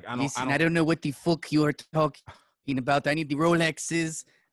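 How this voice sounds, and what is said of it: Weak put-on Irish accent impression. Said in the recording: “I'm not good with the Irish accent, man.”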